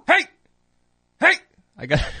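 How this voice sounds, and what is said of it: Short shouted stern dad voice. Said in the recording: “the quick, short, dad voiced, hey... the shouting of the hey”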